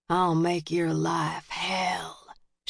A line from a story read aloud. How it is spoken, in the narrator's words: she whispered